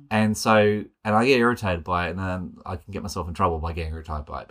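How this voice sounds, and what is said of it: Sydney Australian accent. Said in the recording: “My accent is not like it's like yours. Like our accents are the same, but I feel like there is a different Western Sydney accent that people think of ... you can tell as you hear me talk that I don't sound like that”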